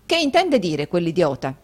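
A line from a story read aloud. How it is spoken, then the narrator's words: Harsh exclamation. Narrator (Italian): esclamò Rodolfo con durezza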